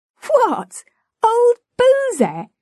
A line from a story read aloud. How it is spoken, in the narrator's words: exclaimed